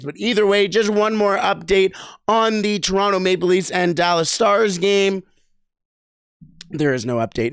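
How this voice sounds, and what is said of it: Worn-out, strained voice. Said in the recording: “As you can probably tell, my voice is absolutely running on his last legs.”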